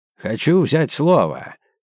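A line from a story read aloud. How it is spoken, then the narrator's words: Hoarse old man. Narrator (Russian): хрипло произнес Сергей Климов, дед Валентина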